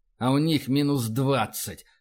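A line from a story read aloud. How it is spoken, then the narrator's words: Hiss. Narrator (Russian): прошипел Рашин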